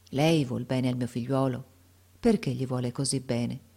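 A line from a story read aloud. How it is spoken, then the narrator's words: Sad, affectionate voice. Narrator (Italian): gli disse con voce triste e affettuosa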